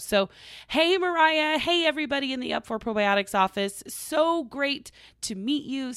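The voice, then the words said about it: Strained, fading voice. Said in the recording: “I'm losing my voice. I've been talking a lot this past weekend.”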